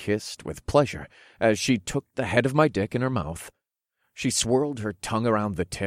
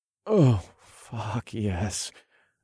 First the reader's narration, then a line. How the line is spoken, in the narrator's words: I murmured